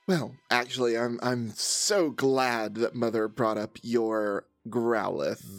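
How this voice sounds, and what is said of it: Creepy, sinister character voice. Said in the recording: “you sound like a serial killer when you say that.”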